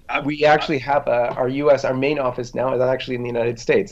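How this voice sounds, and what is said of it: Canadian accent. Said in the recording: “I can tell by your accent, you're Canadian”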